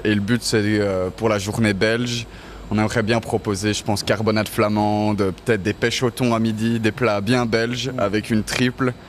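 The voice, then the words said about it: Slight Brussels Belgian French accent. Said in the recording (French): “tu as une pointe d'accent qui te trahit ... Un petit peu, je suis bruxellois”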